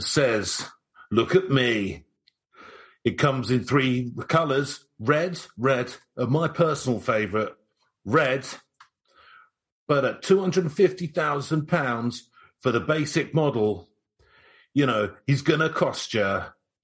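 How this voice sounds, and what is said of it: Imitates another person's voice. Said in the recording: “your Jeremy Clarkson impression”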